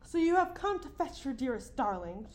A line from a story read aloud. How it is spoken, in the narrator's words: cried